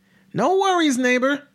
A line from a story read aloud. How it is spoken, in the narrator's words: Deaf Ed yelled